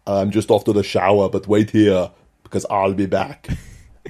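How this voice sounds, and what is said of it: Austrian accent like Arnold Schwarzenegger. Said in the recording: “Helmut Hackenberg, the huge muscled Austrian chap who spoke a bit like Arnold Schwarzenegger”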